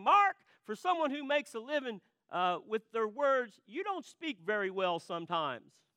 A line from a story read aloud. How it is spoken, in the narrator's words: she was good-natured about it, she yells across the room